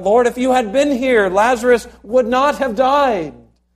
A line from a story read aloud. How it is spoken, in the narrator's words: they cried out